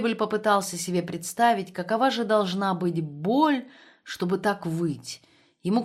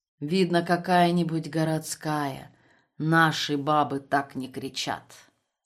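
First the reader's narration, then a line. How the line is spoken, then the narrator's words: Calm. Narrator (Russian): Бем спокойно произнес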